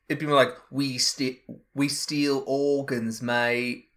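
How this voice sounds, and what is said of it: Bad put-on Australian accent. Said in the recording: “Jude Law is famously Australian and has a bad accent.”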